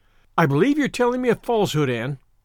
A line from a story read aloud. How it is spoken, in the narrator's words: she said sharply